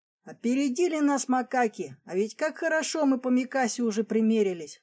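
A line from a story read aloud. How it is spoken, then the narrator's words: Regretful sigh. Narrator (Russian): с сожалением вздохнул Ухтомский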